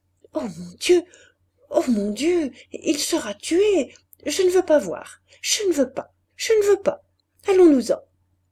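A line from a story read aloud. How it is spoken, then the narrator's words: Anguished nervous stammering. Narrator (French): Elle répétait, nerveuse, balbutiant, toute vibrante d'angoisse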